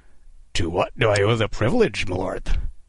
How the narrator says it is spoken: Kidd rasped, masking his terror with ironic courtesy

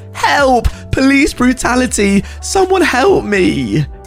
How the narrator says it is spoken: screaming

